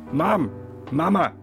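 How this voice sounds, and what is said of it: Yelling loudly. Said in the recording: “stop yelling”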